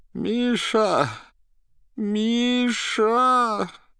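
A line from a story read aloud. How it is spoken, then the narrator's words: Moaning call for help. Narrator (Russian): Пытался позвать на помощь Берлиоза, дважды простонал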